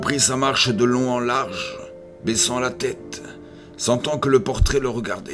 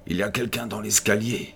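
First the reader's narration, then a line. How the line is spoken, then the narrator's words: Murmur. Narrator (French): murmura-t-il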